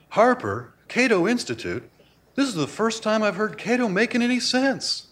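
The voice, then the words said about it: Imitates another person's voice. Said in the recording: “this is going to be a terrible imitation”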